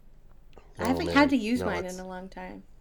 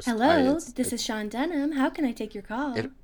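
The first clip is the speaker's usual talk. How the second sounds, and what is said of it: Polished formal phone voice. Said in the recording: “phone voice”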